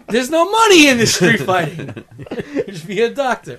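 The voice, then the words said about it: Italian-sounding father character voice. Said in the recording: “giving him a fucking voice... Why is he Italian?”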